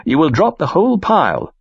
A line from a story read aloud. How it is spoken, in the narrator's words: I exclaim